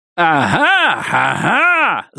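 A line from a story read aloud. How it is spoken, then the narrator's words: Yelling. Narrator (Russian): завопил Люсьен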